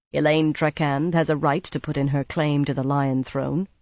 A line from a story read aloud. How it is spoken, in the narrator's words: replied in a flat voice